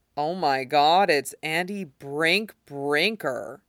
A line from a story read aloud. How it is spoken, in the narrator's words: he says in a broad valley accent